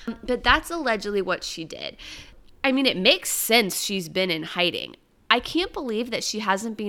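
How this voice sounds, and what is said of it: Usual voice. Nothing is said of it.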